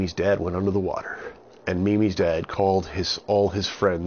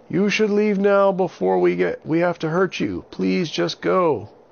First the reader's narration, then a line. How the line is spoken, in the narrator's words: Avin yelled out to the pirates